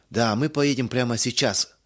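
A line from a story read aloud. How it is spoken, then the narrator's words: Plain. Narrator (Russian): сказал господин Бергман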